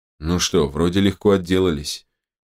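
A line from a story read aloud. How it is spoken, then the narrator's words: Uncertain. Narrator (Russian): неуверенно произнес док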